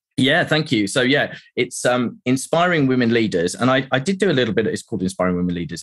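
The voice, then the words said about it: Speaks with a pleasant accent. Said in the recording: “your accent. It's lovely.”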